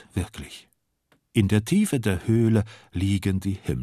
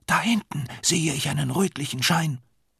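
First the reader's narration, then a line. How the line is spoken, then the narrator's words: Sudden whisper. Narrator (German): Plötzlich flüstert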